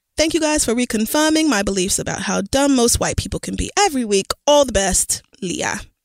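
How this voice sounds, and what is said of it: Reads in a put-on accent. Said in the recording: “I could not help myself from doing that accent.”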